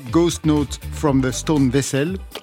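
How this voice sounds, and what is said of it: Poor English pronunciation, heavy accent. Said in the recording (French): “mon accent est pitoyable”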